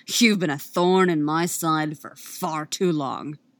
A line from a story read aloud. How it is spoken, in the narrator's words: snarls